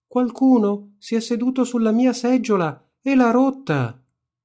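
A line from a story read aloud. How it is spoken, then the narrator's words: Tiny high-pitched shout. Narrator (Italian): l'orsetto piccolo piccolo gridò con la sua voce piccola piccola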